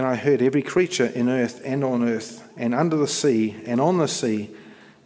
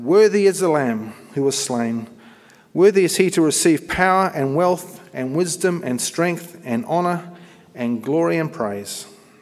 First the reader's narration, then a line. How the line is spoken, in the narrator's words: In a loud voice they were saying